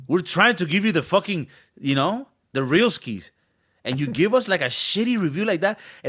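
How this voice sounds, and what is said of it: Non-native English accent. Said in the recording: “our English is not the best. We have an accent.”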